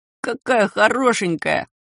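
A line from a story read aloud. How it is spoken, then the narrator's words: Delighted little voice. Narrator (Russian): сказал кто-то до невозможности восхищенным голоском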